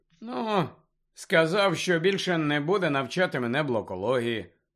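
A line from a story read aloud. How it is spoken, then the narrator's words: Indifferent explanation. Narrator (Ukrainian): байдужим голосом пояснив Гаррі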